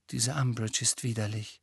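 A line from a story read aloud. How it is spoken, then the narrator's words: Quiet voice. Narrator (German): sagte mit leiser Stimme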